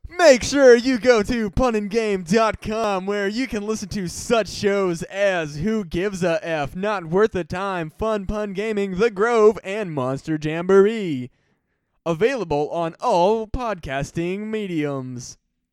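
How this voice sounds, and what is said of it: Fake announcer voice. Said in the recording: “I like my fake announcer voice... then do your fake announcer voice”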